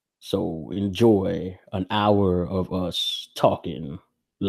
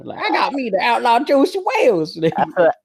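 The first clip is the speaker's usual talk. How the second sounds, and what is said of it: Put-on hillbilly Western accent. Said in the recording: “You could do like the hillbilly one. ... That's what I was trying to go for, and it didn't even sound right.”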